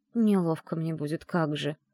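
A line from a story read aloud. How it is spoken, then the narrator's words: Whisper. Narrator (Russian): прошептала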